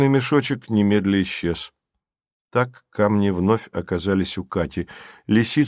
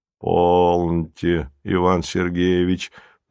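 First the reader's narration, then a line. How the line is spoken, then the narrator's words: Conciliatory deep voice. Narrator (Russian): примирительно пробасил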